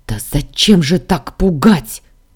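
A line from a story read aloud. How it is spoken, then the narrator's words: Frightened bark. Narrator (Russian): Рявкнула, от страха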